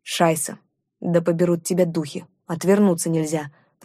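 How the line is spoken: Grumbling chief. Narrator (Russian): проворчал вождь

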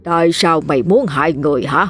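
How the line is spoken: Stern questioning. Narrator (Vietnamese): ông Tre nghiêm giọng hỏi

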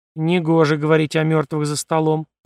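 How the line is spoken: Grumble. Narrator (Russian): проворчала Виноградова

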